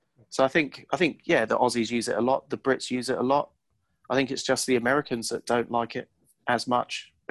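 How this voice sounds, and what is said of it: British accent. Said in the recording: “having a British accent”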